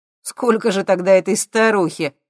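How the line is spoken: Chuckling. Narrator (Russian): хохотнул Максим

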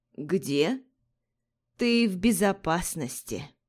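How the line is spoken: Creaky reluctant old woman. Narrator (Russian): Проскрипела старуха и нехотя заметила

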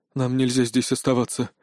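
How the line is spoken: Breathed out. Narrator (Russian): выдохнул он

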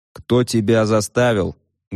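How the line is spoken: Menacing question. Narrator (Russian): грозно спросил я

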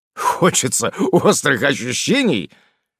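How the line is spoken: Chuckled, man. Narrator (Russian): хохотнул мужчина

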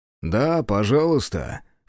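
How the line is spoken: Chuckling. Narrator (Russian): хохотнул он

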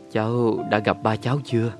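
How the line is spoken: Hesitant question. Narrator (Vietnamese): Tôi hỏi, sau một thoáng ngập ngừng

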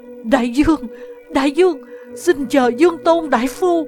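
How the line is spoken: Trembling cry. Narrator (Vietnamese): Chuyên Nghị run rẩy kêu lên

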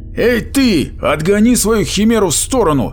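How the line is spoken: Barked from a hatch. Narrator (Russian): рявкнул Меггин из люка наводчика

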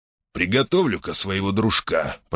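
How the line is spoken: Muttering. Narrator (Russian): пробормотал Джакс

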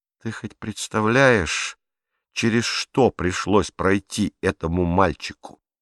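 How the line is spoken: Plain. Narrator (Russian): спросила Беатрис

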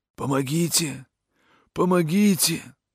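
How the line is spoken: Wild hoarse screaming. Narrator (Russian): Дикие, безумные, хриплые вопли вырываются из моей груди

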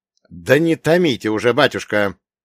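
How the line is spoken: Sharp impatient shout. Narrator (Russian): прикрикнул на священника капитан госбезопасности

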